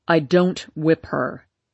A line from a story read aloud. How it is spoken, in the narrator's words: he said harshly